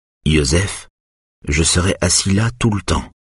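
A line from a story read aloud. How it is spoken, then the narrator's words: Calm. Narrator (French): dit Eric calmement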